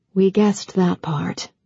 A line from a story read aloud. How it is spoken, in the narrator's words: Emily said softly